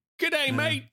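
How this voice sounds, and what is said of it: Attempted Australian accent. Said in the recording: “Australian accent? ... That's not it.”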